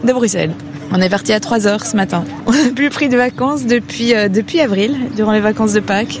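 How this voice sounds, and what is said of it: Slight regional French accent. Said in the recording (French): “J'entends un petit accent.”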